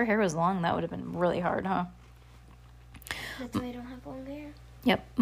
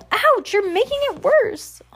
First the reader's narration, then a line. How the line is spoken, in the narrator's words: Heidi wailed